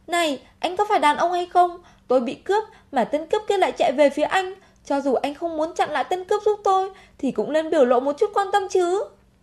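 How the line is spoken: Furious loud shout. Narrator (Vietnamese): Vì quá tức giận liền nhìn người phía trước hét to

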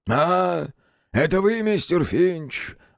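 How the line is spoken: Muffled. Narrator (Russian): глухо произнес он

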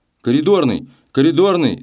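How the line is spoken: Shout. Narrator (Russian): закричал он

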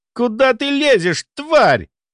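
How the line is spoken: Angry roar. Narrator (Russian): взревел Дугальд

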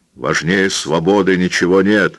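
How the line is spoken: Shout. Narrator (Russian): крикнул гранатометчик

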